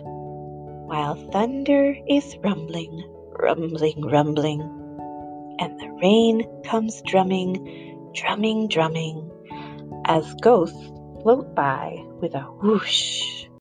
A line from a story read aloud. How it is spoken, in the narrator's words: Mama whispered